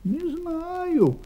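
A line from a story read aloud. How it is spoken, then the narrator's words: Confused young creature. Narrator (Russian): растерянно сказал детеныш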